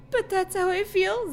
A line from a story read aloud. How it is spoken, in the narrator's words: Zach said sadly